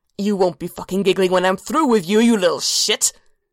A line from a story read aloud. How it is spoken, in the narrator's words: He snarled